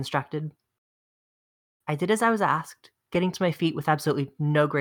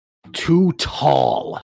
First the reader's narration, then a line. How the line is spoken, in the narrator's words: snarled Horatio